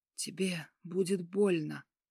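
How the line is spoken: Hoarse rasp. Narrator (Russian): прохрипел

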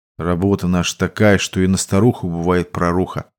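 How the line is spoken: Sighing. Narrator (Russian): вздохнул заместитель Кузьмы

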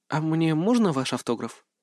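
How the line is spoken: Very quiet soft female voice. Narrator (Russian): Совсем тихо попросил вдруг кто-то мягким женским голосом

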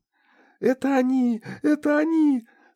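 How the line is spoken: Boy shouting through tears. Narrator (Russian): Сквозь слезы закричал пацан

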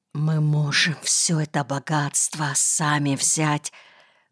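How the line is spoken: Heated whisper from behind. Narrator (Russian): жаркий шепот за спиной

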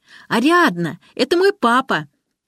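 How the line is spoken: Sudden male shout. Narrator (Russian): Мужчина вдруг закричал

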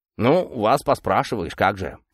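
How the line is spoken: Grumbling. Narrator (Russian): проворчал он

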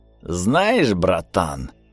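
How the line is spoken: Hissing. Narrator (Russian): шипел он

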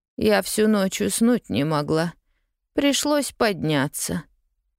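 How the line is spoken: Dull, flat voice. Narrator (Russian): тусклым голосом ответила тетя Полли

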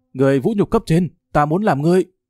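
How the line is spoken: Trampled man shouting loudly. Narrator (Vietnamese): Địch Tương Hải bị dẫm nát dưới chân hét lớn

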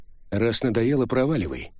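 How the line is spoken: Cold. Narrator (Russian): холодно предложил Винчи

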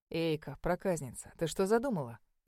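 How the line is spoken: Cheerful, wary. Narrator (Russian): Весело насторожился Сейлиш

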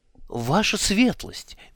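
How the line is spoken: Babbled. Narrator (Russian): меняясь в лице, пролепетал Алькисар

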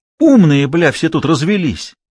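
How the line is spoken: Enthusiastic exclamation. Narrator (Russian): воскликнул командующий с воодушевлением

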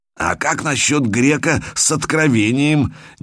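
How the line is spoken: Sudden hoarse croak. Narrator (Russian): неожиданно прохрипел Никао

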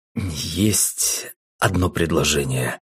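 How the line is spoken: Hesitant, unsure. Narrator (Russian): неуверенно произнес Эдгард

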